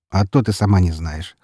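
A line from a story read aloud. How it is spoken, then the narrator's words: Dry snort. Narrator (Russian): хмыкнул я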